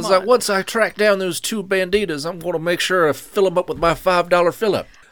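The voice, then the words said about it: Exaggerated Southern drawl. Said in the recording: “Southern accent ... It was still a little Kentucky fried.”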